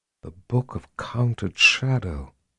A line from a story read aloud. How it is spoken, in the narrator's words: she said in an incredulous whisper